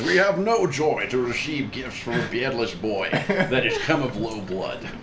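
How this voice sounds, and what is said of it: Character voice for King Lot. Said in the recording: “when you quote Ooh. King Lot, you need to actually do the voice.”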